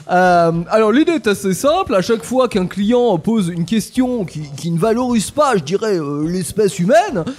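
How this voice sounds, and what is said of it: Put-on South American accent. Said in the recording (French): “c'est son accent. ... Moi, j'ai l'accent, si vous voulez, ... De l'Amérique du Sud.”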